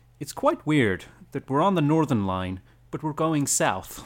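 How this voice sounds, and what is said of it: Put-on American accent. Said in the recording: “American accent... You did it in your voice... my American voice.”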